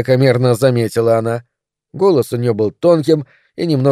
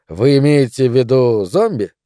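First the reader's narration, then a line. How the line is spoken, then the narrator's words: Old woman's contemptuous snort. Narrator (Russian): Старушка презрительно фыркнула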